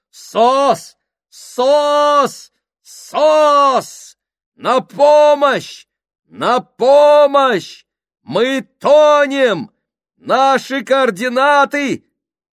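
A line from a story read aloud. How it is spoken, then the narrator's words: Shouting into a microphone. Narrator (Russian): Морзе, который кричал в микрофон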